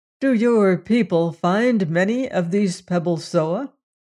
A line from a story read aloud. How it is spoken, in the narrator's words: he asked